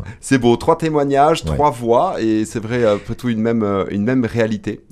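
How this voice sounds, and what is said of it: Regional French accent. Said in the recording (French): “ils se moquent tous ici à l'antenne avec mon accent ... je suis originaire du Nord ... quand je vais dans le Nord, on me dit que j'ai l'accent du Sud”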